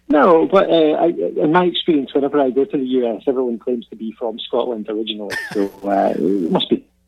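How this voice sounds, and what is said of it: Scottish accent. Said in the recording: “I thought I was hearing a Scottish accent there.”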